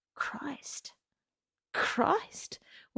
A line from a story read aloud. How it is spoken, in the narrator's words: Her heart began to pound, and she whispered